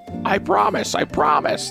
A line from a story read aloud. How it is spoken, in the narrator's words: the oyster catcher shouted between sobs